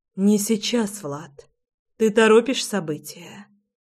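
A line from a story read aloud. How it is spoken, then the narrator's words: Breathy exhale. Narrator (Russian): выдохнула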